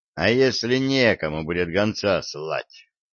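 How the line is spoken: Gloomy question. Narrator (Russian): мрачно спросил Виталик

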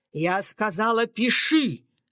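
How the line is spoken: Growling old woman. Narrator (Russian): рычала бабуля

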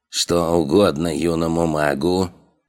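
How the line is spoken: Creaky old man's voice. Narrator (Russian): Скрипучим голосом произнес старичок

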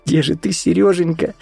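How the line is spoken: Sobbing. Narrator (Russian): всхлипнула Вика

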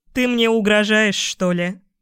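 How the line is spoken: Good-natured chuckle, young woman. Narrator (Russian): Хохотнула девушка-хвост совершенно беззлобно

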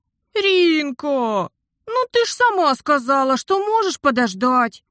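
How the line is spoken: Whining. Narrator (Russian): заскулил брат

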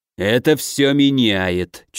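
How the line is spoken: Nearly growling. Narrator (Russian): чуть ли не прорычал Толстой

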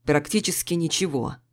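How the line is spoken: Angry reply. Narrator (Russian): зло ответил Джурс

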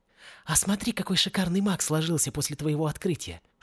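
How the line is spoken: Whispered. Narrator (Russian): шепнула Мергиона

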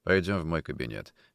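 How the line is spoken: Dry. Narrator (Russian): сухо сказал Никитин

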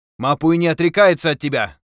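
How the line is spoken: Shouting. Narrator (Russian): крикнул он

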